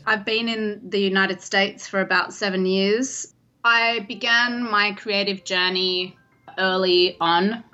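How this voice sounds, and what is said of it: Australian accent. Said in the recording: “I'm actually Australian by birth, in case you couldn't tell from the accent.”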